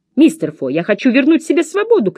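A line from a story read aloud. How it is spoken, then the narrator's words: Shouted. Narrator (Russian): крикнула я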